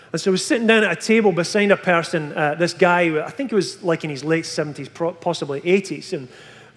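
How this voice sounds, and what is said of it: Scottish accent. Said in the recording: “mimic my accent ... from Scotland ... Bonnie Scotland”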